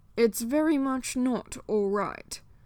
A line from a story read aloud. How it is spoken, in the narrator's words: Dorian snapped